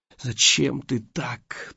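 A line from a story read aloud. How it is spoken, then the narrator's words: Moan. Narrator (Russian): простонала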